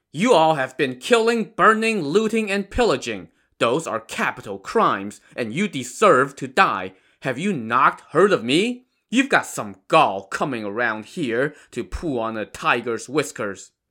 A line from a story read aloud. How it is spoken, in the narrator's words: Shi Jin shouted